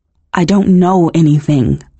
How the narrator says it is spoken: stammered

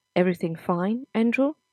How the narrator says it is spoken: Anna asked

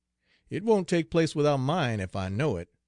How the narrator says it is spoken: exclaimed McBane

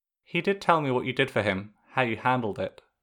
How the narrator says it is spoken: she said softly

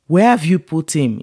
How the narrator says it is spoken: asked

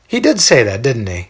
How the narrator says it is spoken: He laughs again

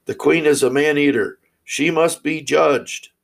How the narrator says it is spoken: the people cried loudly

